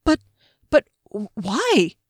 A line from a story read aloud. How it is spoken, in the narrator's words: He stammered in Rhaedrish, aware of how childish it sounded